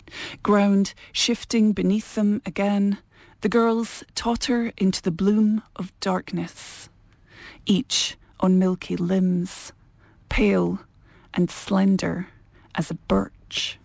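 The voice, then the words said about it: Scottish accent. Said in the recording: “a lovely Scottish accent”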